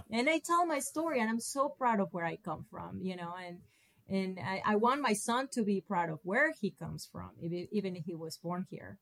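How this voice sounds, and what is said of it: Hispanic-accented English. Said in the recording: “I cannot hide it with this accent ... I am an American with an accent”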